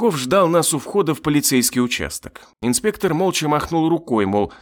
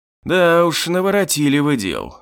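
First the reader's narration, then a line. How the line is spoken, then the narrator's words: Sighing. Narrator (Russian): вздохнул Подляков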